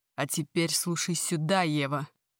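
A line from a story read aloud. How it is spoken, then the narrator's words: Furious, inhuman-sounding voice. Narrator (Russian): Произносит настолько зло, разъяренно, что на секунду мне кажется, этот голос нечеловеческий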